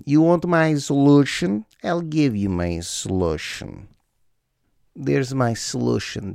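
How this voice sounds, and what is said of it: Mock Russian accent. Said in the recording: “How can we make that word sound more Russian?”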